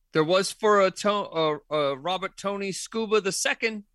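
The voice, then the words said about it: Unconvincing mixed New England British accent. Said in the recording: “You're trying to do a New England, New York, British accent. It's really not working at all.”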